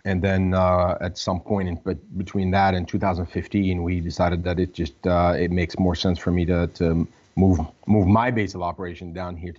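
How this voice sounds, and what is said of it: Boston accent. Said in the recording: “Boston-based guy. I was wondering where the accent was coming from.”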